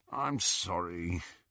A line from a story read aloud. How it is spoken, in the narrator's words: Ron said, moaning a little